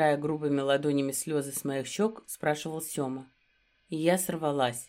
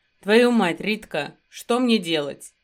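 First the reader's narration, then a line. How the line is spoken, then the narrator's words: Barked. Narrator (Russian): рявкнул Сёма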